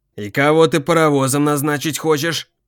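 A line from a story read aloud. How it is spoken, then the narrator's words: Threatening tone. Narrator (Russian): угрожающим тоном начал он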